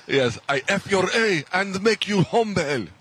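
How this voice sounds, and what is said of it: Good put-on Persian accent. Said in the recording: “Persian accent's pretty good”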